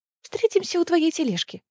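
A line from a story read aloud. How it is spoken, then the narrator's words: Hurried. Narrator (Russian): торопливо сказала Гвин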